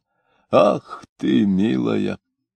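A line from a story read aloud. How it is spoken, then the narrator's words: Frenzied muttering. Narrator (Russian): бормотал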